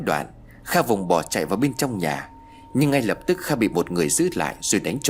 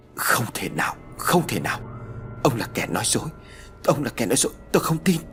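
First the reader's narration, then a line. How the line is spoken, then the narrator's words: Stunned stammering. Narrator (Vietnamese): Kha gục hẳn xuống miệng lắp bắp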